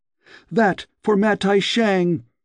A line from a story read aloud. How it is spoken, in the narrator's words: cried